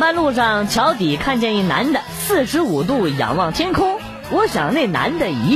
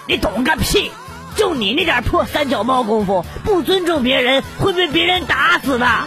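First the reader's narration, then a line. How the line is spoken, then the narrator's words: Roaring angrily. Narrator (Chinese): 师傅 对我吼道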